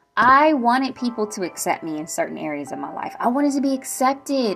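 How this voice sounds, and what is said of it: Excited voice, pitch going up and down. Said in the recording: “My voice is going up and down from the excitement”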